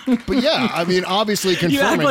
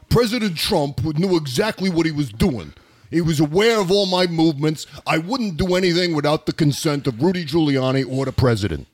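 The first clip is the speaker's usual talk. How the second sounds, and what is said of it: Put-on accent imitating Lev Parnas. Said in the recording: “See, there's my accent for you. ... I can still do accents”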